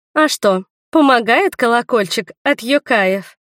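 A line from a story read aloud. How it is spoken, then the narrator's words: Mocking question. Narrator (Russian): Также насмешливо спросила я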